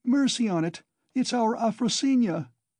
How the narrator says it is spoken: a woman cried tearfully close by

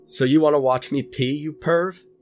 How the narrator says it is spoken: Kurt hollered back

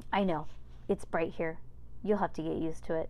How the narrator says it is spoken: said Dr

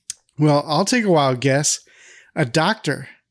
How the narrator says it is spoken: Carol laughs and says

